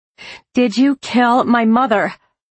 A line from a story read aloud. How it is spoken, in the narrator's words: I screamed in her face